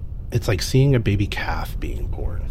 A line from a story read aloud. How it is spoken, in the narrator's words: Voss said wistfully